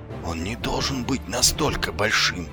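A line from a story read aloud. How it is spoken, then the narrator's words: Muttered to himself. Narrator (Russian): пробормотал себе под нос Ваймс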